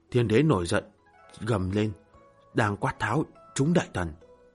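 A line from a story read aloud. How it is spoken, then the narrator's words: Quiet voice. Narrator (Vietnamese): Nga Mi nhỏ giọng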